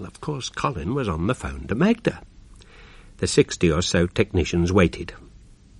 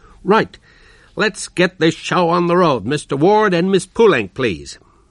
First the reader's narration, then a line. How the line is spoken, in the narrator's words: Chris called out